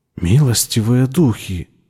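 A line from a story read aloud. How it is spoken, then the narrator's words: Breathless pained whisper. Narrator (Russian): прошептала Никки, тяжело дыша, как от внезапной боли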